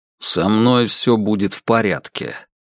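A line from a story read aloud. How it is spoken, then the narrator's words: Grumbling. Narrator (Russian): проворчал Кай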